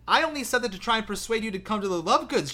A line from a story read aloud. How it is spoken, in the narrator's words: she cried in exasperation